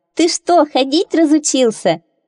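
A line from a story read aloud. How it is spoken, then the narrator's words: Laughing. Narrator (Russian): А Лиза засмеялась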